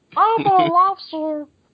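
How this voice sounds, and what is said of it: High squeaky Elmo puppet voice. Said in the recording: “that's not a bad impression... You do a terrifyingly good impression of Elmo”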